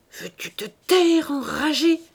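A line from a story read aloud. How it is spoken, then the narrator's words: Old woman's worried murmur. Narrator (French): murmura la vieille dame, inquiète de cette nouvelle scène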